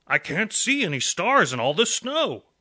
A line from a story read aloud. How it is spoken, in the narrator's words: Santa blurted